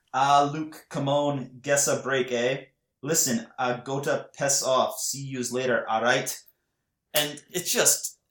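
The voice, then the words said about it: Put-on Scottish accent. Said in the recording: “hearing a Canadian attempt a Scottish accent is amazing”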